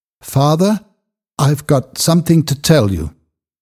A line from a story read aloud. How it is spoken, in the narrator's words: Godfrey said in a trembling voice